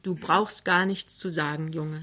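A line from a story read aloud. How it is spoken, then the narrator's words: Plain. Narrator (German): sagt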